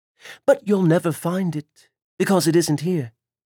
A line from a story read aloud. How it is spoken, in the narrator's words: added calmly